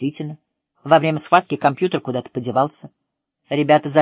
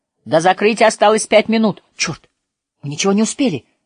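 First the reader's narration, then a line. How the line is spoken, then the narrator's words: Shouting. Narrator (Russian): закричал Роджер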